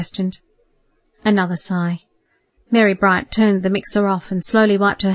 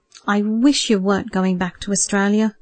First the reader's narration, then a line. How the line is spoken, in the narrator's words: said sadly